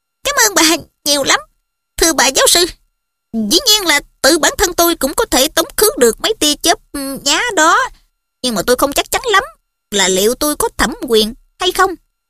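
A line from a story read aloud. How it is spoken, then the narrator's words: Squeaky mouse-like voice. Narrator (Vietnamese): Bằng giọng nói chinh chích như tiếng chuột, giáo sư Flitwick nói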